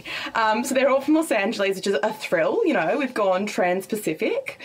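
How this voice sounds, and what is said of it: Broad Queensland Australian accent. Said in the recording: “my accent completely butchers, and it sounds like a bogan from up north ... I'm from Queensland”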